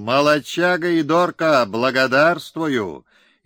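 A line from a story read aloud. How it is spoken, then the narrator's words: Full-chested exhale. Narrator (Russian): Эдеркей всей грудью выдохнул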